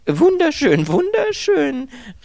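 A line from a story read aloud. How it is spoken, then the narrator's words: Mechanical exclamation. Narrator (German): rief er fast mechanisch aus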